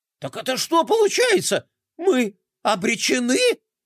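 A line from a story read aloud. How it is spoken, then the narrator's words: Shrill squeal. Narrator (Russian): Взвизгнул Бублик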